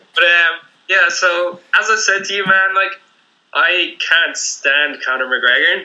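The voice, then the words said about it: Dublin Irish accent. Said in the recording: “a Dublin accent”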